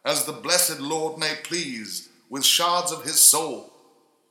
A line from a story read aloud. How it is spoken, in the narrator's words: beamed shouted out